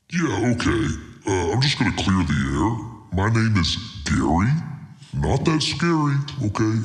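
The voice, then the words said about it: Scary, strained, hurting voice. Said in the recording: “scary voice who sits right over there in the corner, all spooky-like in the shadows... scary voice guy... My voice has hurt for a very long time now.”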